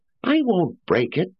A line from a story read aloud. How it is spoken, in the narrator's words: said Paul impatiently